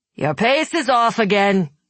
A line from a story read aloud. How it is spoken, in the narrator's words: he barked